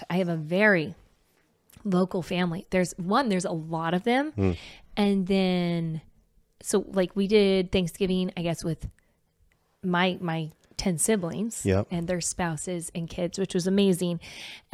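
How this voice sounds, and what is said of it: Hoarse, worn-out voice. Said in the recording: “my voice is out”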